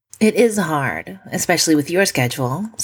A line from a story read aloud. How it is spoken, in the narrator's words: Simone says